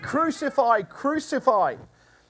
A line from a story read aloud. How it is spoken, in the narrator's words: the high priests and the police saw him, they shouted in a frenzy